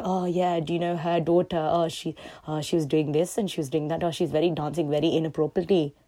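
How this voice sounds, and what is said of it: Put-on immigrant freshie accent. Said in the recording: “I don't know why I did a weird freshie accent.”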